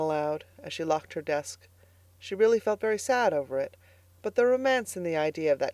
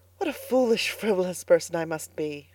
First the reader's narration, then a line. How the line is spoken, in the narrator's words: she sighed